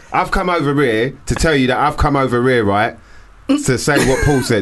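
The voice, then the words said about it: Exaggerated Essex accent. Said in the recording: “I'm going to do my best Essex accent”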